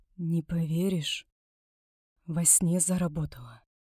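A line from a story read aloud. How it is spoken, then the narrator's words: Stunned whisper. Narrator (Russian): ошеломленно прошептала я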